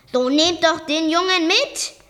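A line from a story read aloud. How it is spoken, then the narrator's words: Called out. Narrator (German): rief er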